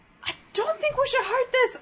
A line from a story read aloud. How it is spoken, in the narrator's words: Kavan is yelling